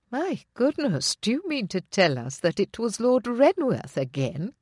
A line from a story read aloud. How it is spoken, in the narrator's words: Constable's sister, exclaimed softly